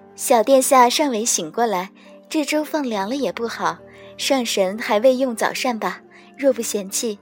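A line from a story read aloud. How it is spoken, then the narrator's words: Smiling. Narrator (Chinese): 奈奈抿嘴一笑，道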